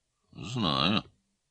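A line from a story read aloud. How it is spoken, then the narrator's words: Gloomy minister. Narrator (Russian): мрачно сказал министр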